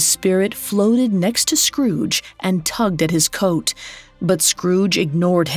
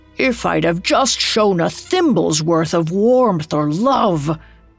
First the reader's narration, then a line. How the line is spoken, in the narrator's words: He groaned in despair